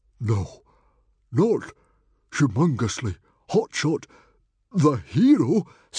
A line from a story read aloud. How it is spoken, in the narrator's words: stammered Stoic the Vast in awe